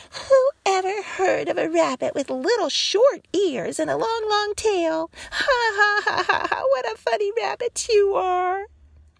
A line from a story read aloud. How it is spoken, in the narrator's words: they teased him and laughed at him and said